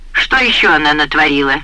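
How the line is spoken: Menacing question. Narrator (Russian): грозно спросил Джейрд

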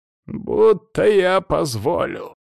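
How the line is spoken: Furious growl. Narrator (Russian): яростно прорычал Яковлев

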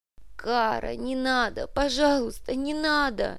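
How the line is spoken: Sobbing. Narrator (Russian): Инга рыдала

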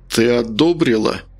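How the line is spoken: Choking, then angry, deliberate. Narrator (Russian): Он поперхнулся, сглотнул слюну и начал заново, сердито сдвинув брови и четко выделяя каждое слово

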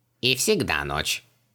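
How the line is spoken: Grumbling mutter. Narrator (Russian): пробурчал Джин

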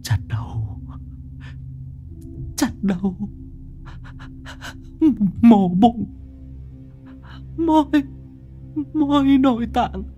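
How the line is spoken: Man, whimpering. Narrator (Vietnamese): Gã mếu máo

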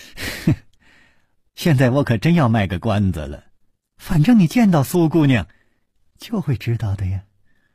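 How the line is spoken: Smiling, teasing tone. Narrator (Chinese): 柳无眉却总是笑着说

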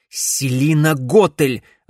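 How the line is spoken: Irritated curt snap. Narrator (Russian): раздраженно бросил Алекс

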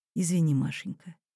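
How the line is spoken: Quiet composed. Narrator (Russian): сапер уже взял себя в руки, тихо сказал жене

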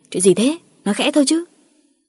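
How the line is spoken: Irritated snapping. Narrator (Vietnamese): Cả Ngọc và Quyết gắt lên

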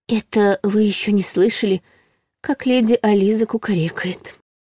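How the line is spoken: Confiding whisper. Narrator (Russian): шепотом поделилась Ларри

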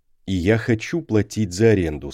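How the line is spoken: Plain. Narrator (Russian): сказал Росс

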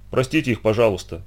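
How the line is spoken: Upset mutter. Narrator (Russian): пробормотал расстроенный Доэн

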